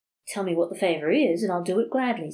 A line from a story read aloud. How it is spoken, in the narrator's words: said the priest